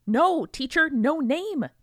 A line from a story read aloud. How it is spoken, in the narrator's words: they exclaimed